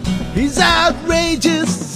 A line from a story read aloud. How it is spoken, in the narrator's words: he screams and he bawls